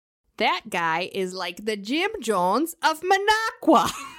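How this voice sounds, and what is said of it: Put-on Wisconsin accent. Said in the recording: “I'm going to say this in my Wisconsin voice”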